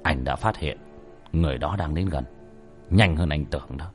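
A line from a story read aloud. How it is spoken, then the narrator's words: Stern voice. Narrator (Vietnamese): Bác cổ nghiêm giọng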